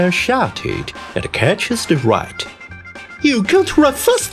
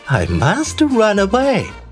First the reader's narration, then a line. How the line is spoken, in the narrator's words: the right says and laughs